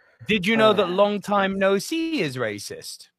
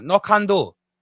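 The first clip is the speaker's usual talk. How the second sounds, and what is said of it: Mock Chinese accent. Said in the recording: “Put no can do with a Chinese accent.”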